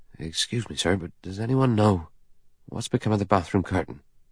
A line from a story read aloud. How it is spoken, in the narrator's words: He said nervously and at random